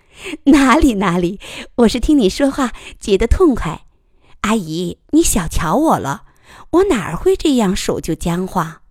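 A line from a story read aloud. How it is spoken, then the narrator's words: Chuckling. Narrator (Chinese): 于乐水呵呵的笑了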